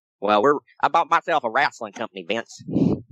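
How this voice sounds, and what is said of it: Imitates another person's voice. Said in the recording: “Gotta get my Ted Turner impression in there, my billionaire Ted.”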